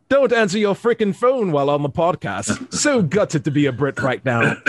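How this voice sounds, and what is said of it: Put-on British accent. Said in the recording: “I'm going to say this in a British accent.”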